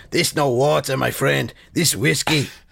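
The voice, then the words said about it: Put-on Albanian accent, not accurate. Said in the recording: “I don't know if that's an accurate Albanian accent. I suspect it's not ... Sounds like Speedy Gonzalez.”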